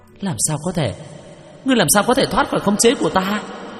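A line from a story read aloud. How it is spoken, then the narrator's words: Terrified high-pitched cry, female ghost. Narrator (Vietnamese): Nữ quỷ khuôn mặt khiếp sợ, cao giọng la lên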